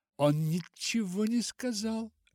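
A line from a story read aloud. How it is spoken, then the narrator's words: Exclaiming. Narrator (Russian): воскликнула Руфь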